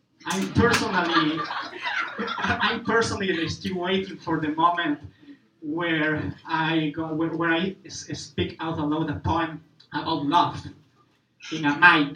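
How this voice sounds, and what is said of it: Non-native English accent. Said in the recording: “speaking English with an accent ... The way I pronounce words in English”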